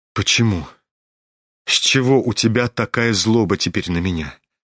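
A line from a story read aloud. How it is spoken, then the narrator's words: Sad and fervent. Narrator (Russian): Грустно и с жаром подхватил князь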